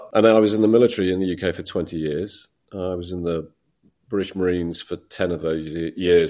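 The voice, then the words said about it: British English accent. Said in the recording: “I'm a Brit, as I hope you can still tell... holding on to my accent”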